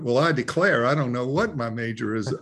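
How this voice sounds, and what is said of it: Put-on Southern accent. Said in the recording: “Did you do that in a southern accent?”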